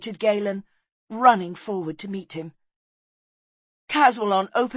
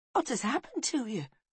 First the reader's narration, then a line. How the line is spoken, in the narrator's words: whispered Galen